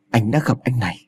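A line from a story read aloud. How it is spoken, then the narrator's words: Very soft stunned reply. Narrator (Vietnamese): Phong lặng người đi một lúc rồi đáp thật khẽ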